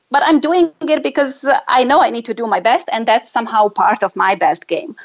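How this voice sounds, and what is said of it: Non-native English accent. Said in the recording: “I have this thing about my accent ... people whose native language is English and then I have my funny accent”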